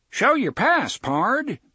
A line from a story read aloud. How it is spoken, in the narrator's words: cried the one that had been stuck in a corner of the lobby of the Candleton Travelers Hotel for the last 234 years